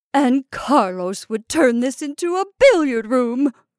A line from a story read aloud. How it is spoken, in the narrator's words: Kintard indignantly exclaimed